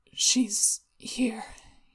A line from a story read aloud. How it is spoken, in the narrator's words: he mumbled